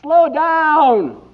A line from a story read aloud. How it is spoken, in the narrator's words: he screamed after it